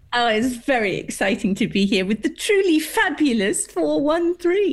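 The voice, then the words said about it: Elegant English accent. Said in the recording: “It sounds so elegant with the English accent.”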